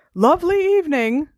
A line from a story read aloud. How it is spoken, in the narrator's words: shouted Uncle Vernon